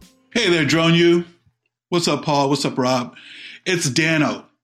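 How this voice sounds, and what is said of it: Usual voice. Nothing is said of it.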